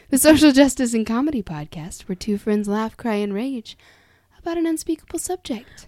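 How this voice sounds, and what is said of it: Public radio announcer voice. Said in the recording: “I'm going to throw on my NPR voice.”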